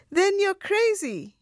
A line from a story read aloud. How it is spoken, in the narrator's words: was shouting now